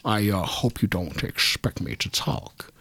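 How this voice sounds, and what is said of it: Imitates another person's voice. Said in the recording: “I'd go in my best Sean Connery accent”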